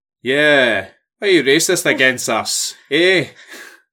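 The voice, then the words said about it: Fake Scottish accent. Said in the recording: “Why am I doing a false Scottish accent? ... I don't really sound like that.”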